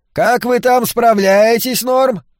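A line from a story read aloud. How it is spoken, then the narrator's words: Shouting husband. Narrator (Russian): крикнул ее муж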